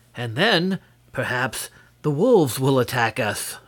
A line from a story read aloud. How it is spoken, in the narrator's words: said Nerle cheerfully